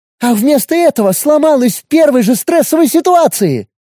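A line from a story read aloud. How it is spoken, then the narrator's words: Girl shouting out. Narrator (Russian): выкрикнула девушка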